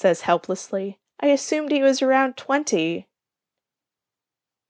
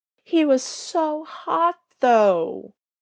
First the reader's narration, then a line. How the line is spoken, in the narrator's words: Stiles moans